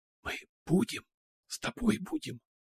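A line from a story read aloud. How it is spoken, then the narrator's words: Whispered. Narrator (Russian): произнесла шепотом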